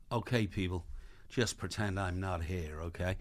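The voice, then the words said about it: American accent. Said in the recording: “Richard Gere's got an American accent”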